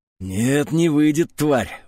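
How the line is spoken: Breathless exhale. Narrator (Russian): выдохнул я

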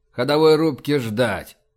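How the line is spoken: Tired. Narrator (Russian): устало сказал Рашен

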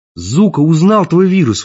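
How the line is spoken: Exclaimed. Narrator (Russian): воскликнул

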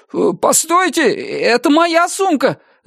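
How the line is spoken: Alarmed shout. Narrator (Russian): закричал он

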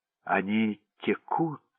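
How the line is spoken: Plain. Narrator (Russian): сказал Уотсон папе

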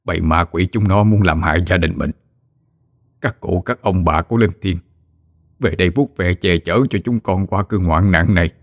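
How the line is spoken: Old man's muttered prayer. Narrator (Vietnamese): Ông lẩm bẩm khấn

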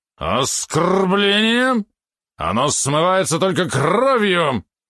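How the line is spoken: Menacing growl. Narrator (Russian): Рычал он грозно

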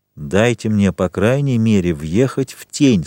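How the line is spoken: Plain. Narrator (Russian): сказал Андреа

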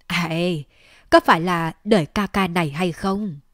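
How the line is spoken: Big-bellied man, laughing loudly. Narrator (Vietnamese): Tên nam nhân bụng lớn cười lớn nói

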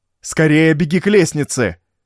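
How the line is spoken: Shouting at full strength. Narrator (Russian): закричал он уже изо всех сил

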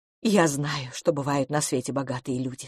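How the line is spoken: Quiet. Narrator (Russian): сказала она тихо

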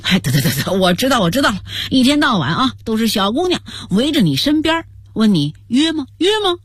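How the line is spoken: Sly teasing. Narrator (Chinese): 刘洋赶紧坏笑着说

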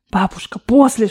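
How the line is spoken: Whisper. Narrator (Russian): шептал я

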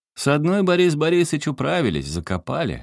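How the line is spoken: Cheerful shout. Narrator (Russian): весело крикнул Сашка Воейкову

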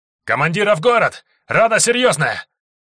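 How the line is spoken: Soldier yelling. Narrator (Russian): орал солдат

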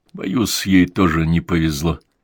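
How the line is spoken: Choked, strained voice. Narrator (Russian): ответил сдавленным голосом

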